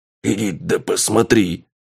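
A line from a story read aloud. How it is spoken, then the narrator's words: Trembling thug. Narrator (Russian): Дрожащим голосом отвечает головорез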